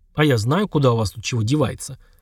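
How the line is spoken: Weary snort. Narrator (Russian): хмыкнул Олег, больше всего мечтающий сейчас о том, чтобы его оставили в покое

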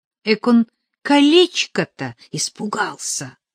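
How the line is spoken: Smug whisper in ear. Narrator (Russian): самодовольно шепнула Катя на ухо Нелли

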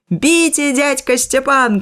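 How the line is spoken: Shouting from afar. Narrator (Belarusian): крычу і я здалёку

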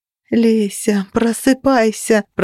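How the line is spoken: Moaning. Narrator (Russian): простонала я

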